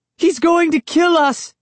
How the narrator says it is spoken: Sari cried

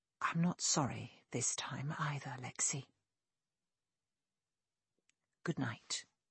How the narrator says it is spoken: He must have done as well, since he whispered

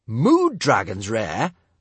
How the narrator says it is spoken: snorted Kamikaze

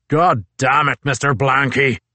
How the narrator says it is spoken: boomed Captain Crozier's bass bellow down the ice tunnel

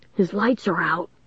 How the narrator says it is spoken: Lanny whispered

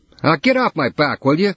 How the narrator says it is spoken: yelled at her

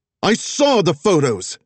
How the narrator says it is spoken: she roared

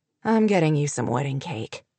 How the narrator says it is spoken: Luke announced grimly

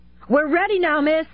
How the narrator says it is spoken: One of the movers shouted from the cab of the truck

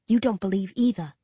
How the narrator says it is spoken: I whisper

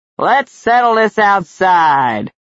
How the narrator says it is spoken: one shouted

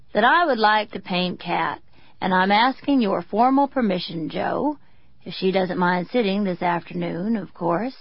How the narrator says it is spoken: Sam Forrest said lazily into the room at large

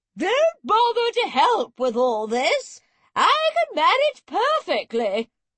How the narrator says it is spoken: calling

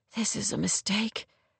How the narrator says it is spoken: Rory murmured

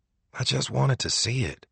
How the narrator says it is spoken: he said softly

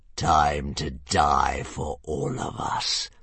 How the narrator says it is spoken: purred the Green Death

